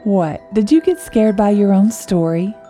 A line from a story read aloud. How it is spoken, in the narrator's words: Sarah chuckled